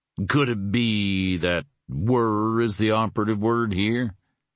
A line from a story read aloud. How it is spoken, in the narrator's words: He added, his voice roughening just a bit more